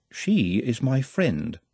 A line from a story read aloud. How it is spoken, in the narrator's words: said Nutt calmly